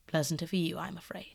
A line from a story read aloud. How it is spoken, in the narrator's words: murmured Howard regretfully